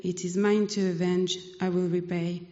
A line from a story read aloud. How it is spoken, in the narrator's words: says the Lord